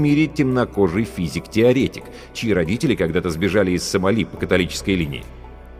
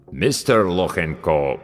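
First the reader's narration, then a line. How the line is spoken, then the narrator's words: Deep voice mangling a name. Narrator (Russian): пробасил авербанкащик, как обычно безбожно коверкая фамилию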